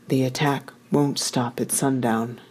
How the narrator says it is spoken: Gia whispered

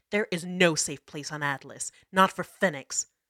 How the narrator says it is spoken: Jasira snarled

